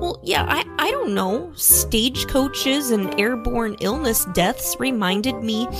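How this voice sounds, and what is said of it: Usual voice. Nothing is said of it.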